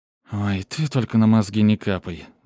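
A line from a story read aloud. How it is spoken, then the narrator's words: Sigh. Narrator (Russian): вздохнула девушка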